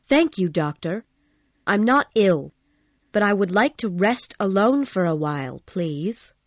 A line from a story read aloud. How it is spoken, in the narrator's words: Christine said